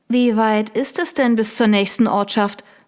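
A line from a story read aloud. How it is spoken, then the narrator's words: Plain. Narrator (German): fragte Georgie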